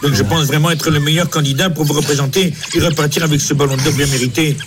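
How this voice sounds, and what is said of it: Put-on pied-noir accent. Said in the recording (French): “Plus tu le fais, plus t'as l'accent pied noir au début, quand même.”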